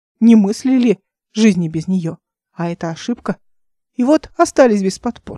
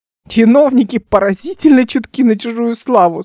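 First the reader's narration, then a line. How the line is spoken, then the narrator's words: Through laughter. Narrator (Russian): сквозь смех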